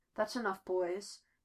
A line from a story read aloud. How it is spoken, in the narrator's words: Natasha murmurs